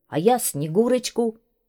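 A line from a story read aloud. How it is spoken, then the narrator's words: Shouted. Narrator (Russian): крикнул Саша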